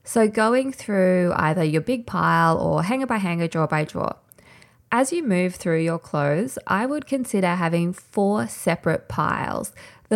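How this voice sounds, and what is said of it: Slightly nasal, strained voice. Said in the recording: “I feel like I'm starting to lose my voice a little bit ... I apologize if my voice is a bit nasally”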